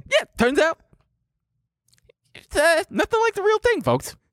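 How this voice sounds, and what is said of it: High-pitched imitation of another person's voice. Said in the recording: “good Jay Leno impression ... You gotta go high ... You're getting pretty Tyson-y”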